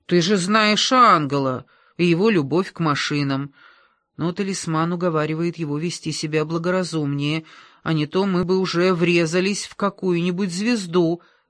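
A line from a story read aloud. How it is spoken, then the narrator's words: Gloomy. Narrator (Russian): добавил он мрачно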